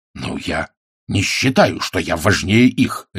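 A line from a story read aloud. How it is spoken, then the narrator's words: Barked. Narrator (Russian): рявкнул Ваймс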